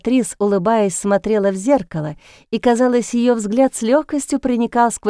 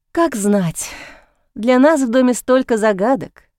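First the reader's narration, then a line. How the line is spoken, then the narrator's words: Sighing. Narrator (Russian): вздохнула я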